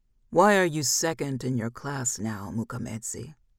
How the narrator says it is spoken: he asked

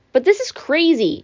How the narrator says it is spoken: Annabeth cried

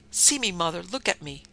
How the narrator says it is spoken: She cried

